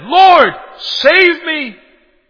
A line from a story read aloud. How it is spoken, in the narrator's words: he cried out and he said